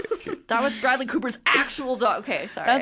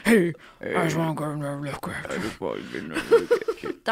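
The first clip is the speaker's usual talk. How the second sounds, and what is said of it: Deep vocal-fry Bradley Cooper impression. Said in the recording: “That's like the bassest vocal fry ever. It's just all vocal fry. ... Bradley Cooper in A Star Is Born”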